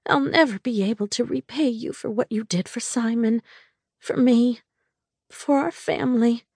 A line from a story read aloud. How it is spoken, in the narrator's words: she said tearfully